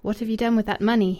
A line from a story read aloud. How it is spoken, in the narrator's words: he asked, in a cold voice